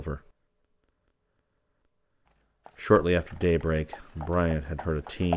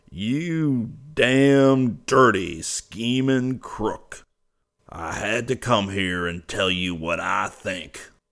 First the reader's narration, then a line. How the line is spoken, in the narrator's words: he bellowed